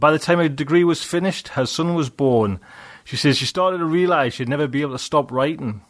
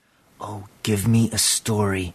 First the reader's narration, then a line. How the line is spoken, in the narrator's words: he whispered